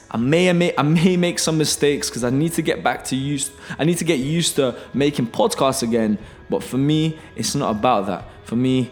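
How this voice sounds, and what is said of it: Out of breath. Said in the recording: “I'm quite out of breath. However, I'm out of breath for one reason. I finished working out and it was quite tough.”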